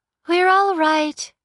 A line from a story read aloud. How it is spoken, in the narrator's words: the girl said, smiling brightly